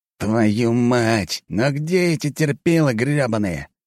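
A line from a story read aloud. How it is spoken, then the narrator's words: Growl. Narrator (Russian): прорычал он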